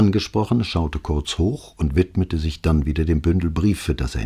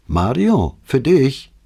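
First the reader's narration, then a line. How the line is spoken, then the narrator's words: Calling out. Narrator (German): rief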